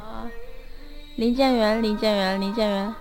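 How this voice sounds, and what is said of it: Alternating loud and soft voice. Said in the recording (Chinese): “你大声小声大声小声”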